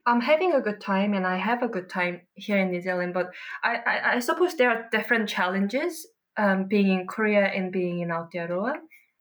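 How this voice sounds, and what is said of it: Slight Korean accent in English. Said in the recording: “Asian female with a bit of an accent”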